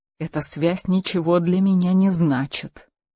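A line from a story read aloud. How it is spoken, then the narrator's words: Quiet. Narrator (Russian): тихо произнес Рауль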